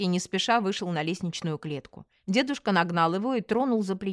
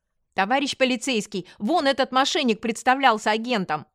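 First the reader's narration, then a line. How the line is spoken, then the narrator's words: Shouting. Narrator (Russian): закричала я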